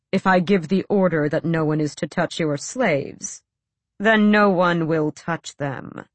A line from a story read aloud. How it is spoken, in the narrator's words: Rolf said through his teeth